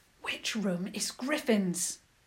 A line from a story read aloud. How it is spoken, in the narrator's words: George hissed, even though there was no one to be seen